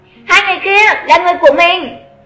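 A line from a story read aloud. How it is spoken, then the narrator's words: Raised voice. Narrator (Vietnamese): cao giọng nói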